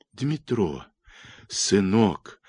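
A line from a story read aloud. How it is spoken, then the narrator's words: Whispering. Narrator (Russian): зашептала она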